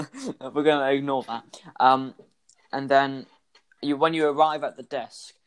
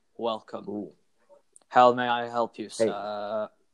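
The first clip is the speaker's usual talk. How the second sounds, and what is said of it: Deep male robot voice. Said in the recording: “in a deep male voice”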